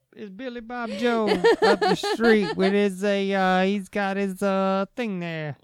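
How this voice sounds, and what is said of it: Put-on accent. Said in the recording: “I don't know why you're doing that accent. ... I'm in an accent mood.”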